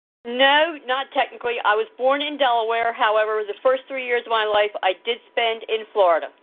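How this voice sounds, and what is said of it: Slight Southern twang. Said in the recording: “You got some of that southern twang... you got just a little bit, but enough that us southern twangers can pick up other southern twangers”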